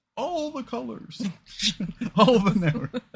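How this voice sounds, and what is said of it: Imitates another person's voice, badly. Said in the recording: “my Giuliani impression. Very bad.”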